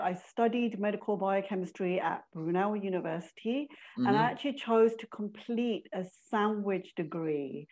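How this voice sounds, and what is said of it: London accent. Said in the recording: “we can't ignore the London accent.”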